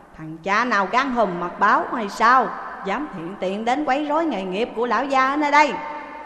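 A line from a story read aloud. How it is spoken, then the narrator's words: Shouted. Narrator (Vietnamese): Người kia quát lên rằng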